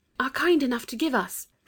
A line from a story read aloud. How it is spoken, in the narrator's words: said Anthea in a whisper